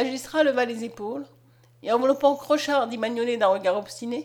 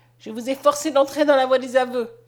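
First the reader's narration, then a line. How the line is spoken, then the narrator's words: Harsh statement. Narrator (French): prononça-t-il durement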